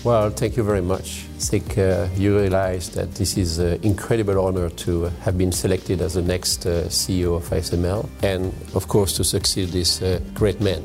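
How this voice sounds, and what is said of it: French-accented English. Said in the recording (Dutch): “Hij heeft een Franse naam, Christophe Fouquet, en een Frans accent.”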